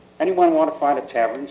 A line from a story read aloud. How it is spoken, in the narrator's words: Sergeant Fetlock asked